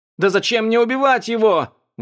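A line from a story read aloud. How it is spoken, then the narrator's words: Exclaimed. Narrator (Russian): воскликнул Лан Сююй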